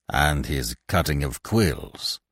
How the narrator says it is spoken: growled Polichinelle

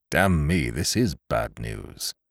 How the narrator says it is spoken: he murmured

